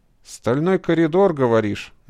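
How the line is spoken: Grim. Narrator (Russian): мрачно произнес он

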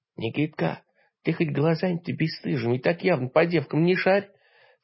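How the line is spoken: Whispered rebuke, old woman. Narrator (Russian): Шепотом осадила меня бабка

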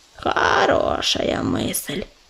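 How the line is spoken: Grumbled. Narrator (Russian): пробурчал Корявый

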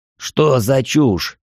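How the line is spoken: Irritated, curt. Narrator (Russian): раздраженно бросил Агасян

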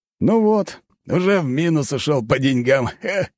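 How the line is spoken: Laughing. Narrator (Russian): засмеялся командир

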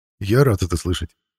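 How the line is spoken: Calm reply, officer. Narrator (Russian): все так же спокойно ответил майор

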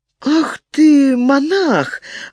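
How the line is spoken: Woman exclaiming. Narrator (Russian): воскликнула женщина

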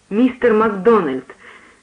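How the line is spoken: Trembling voice. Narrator (Russian): сказал я дрожащим голосом

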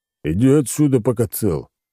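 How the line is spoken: Growl. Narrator (Russian): рыкнул он

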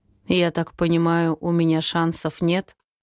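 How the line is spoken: Hollow, muffled voice. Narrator (Russian): спрашивает глухим голосом

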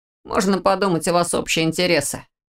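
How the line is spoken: Offhand remark with snort. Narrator (Russian): обронил Орс, фыркнув

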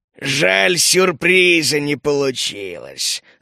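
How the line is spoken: Growling. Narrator (Russian): рыкнул Ульф

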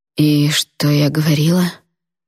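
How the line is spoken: Hoarse voice. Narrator (Russian): Голос хрипел

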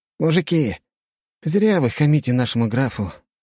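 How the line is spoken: Sighing. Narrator (Russian): вздохнул Джованни

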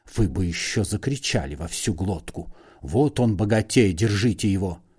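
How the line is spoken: Angry whisper. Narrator (Russian): Остап сердито шепнул

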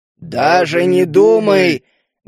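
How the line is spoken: Loud growl. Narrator (Russian): громко рыкнул я

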